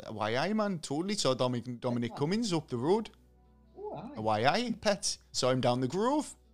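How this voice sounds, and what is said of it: Put-on Newcastle Geordie accent. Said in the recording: “I realised that wasn't me Durham accent. Like Durham's Newcastle.”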